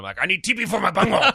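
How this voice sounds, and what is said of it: Cartoon character voice impression. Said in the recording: “my impression of either of those characters ... that Cornholio episode”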